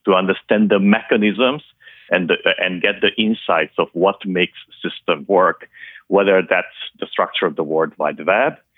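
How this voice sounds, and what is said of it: Noticeable foreign accent. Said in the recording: “my listeners can hear the accent”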